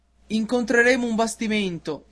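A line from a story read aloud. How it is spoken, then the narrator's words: Sailors shouting. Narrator (Italian): gli gridarono i marinai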